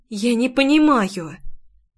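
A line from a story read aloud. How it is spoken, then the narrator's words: Soft breathy exhale. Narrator (Russian): тихо выдохнула Майри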